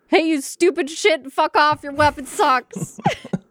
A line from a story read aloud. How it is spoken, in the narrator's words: yell at him